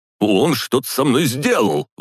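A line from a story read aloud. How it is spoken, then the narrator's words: Shout. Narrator (Russian): выкрикнул Якубов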